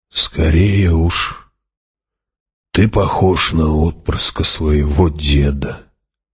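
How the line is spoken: Hoarse old man's voice. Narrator (Russian): хриплым стариковским голосом ответил Хават

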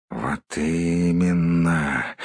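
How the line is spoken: Grumbling. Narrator (Russian): бурчал он

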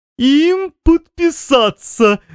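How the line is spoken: Breathless, exhausted from laughing. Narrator (Russian): выдохнул мистер ИИИ, обессиленный хохотом

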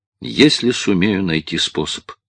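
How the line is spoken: Calm answer. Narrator (Russian): ответил Гуннар так спокойно

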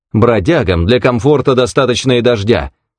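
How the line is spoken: Sharp, curt. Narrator (Russian): резко сказал незнакомец

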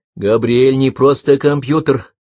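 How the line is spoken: Firm declaration. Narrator (Russian): твердым голосом заявила Миюки

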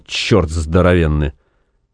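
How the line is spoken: Grumbling. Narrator (Russian): проворчал

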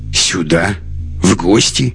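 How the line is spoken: Contemptuous snort. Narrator (Russian): Лекс презрительно хмыкнул

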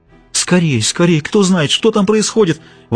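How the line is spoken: Exclaiming. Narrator (Russian): воскликнула Донья Фернанда

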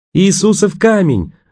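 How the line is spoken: Joyful shout. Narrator (Russian): радостно закричал

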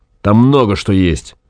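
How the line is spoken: Angry. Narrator (Russian): сказал Гай зло

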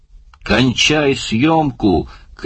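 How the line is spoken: Shouting. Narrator (Russian): крикнул Барни

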